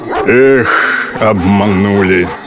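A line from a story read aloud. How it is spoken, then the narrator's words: Sighing blacksmith. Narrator (Russian): вздохнул кузнец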